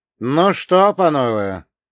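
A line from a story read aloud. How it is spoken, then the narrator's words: Smirking snort. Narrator (Russian): хмыкнул я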